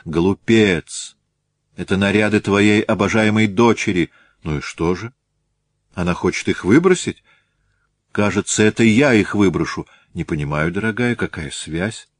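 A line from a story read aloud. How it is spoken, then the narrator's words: Calmer after deep breath. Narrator (Russian): Ольга Михайловна сделала глубокий вздох и спросила более спокойно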